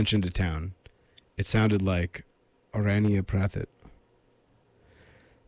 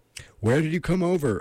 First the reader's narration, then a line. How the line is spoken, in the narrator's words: I yelled, in English also